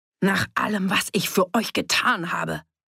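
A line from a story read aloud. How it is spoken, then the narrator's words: Angry roar. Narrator (German): brüllte Fritz ihn an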